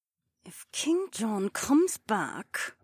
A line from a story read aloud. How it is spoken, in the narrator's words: Becca muttered